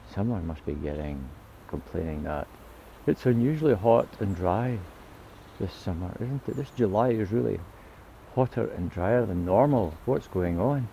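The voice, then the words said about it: Put-on English accent. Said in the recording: “that was a kind of the English accent”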